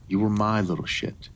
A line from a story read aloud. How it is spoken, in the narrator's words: he gasped